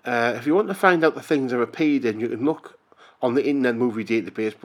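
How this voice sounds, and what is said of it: Northern English County Durham accent. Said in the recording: “I come from the north of England. County Durham, in fact, and this is a County Durham accent.”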